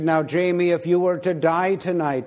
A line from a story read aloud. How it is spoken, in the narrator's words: my dad asked